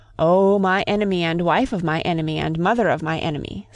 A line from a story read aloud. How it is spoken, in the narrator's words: said the cat